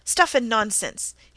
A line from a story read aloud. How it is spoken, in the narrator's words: he exclaimed angrily